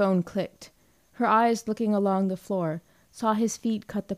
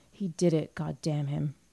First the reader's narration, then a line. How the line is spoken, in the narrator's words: whispered huskily